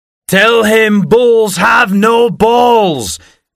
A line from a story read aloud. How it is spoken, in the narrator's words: Mike shouted, very drunk, from the other end of the table